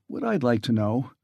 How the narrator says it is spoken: murmured Franks

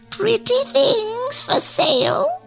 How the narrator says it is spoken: croaked

